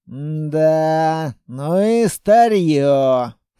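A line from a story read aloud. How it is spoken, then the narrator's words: Grumbling. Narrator (Russian): проворчал тот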